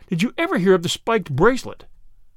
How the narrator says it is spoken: cried Flambeau

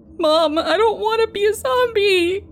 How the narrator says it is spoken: he cries

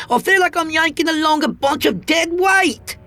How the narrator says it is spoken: she snapped at me

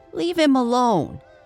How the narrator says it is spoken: she yelled at Julian

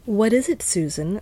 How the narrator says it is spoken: asked Mr

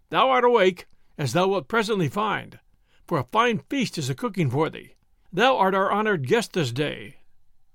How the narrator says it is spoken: quoth Robin, laughing

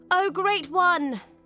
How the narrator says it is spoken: she called out

